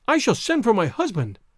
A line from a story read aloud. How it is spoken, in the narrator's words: she cried